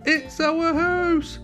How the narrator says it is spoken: squeaked the mouse

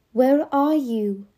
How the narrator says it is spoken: he cried out

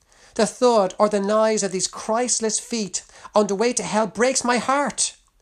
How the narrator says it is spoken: cried

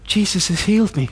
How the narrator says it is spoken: I whisper into his ear

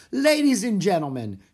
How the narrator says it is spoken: she shouted

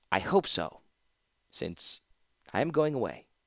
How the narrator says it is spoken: the man said quietly

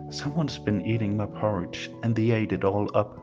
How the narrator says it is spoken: cried the baby bear

